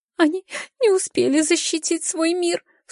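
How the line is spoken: Sobbing. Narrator (Russian): всхлипнула Даля

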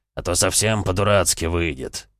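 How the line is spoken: Grumbling. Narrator (Russian): забурчал

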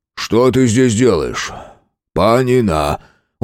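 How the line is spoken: Tired question. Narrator (Russian): Устало прикрыв веками глаза, спросил Палыч

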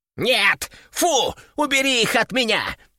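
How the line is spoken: Panicked yelling. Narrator (Russian): В панике заорал он

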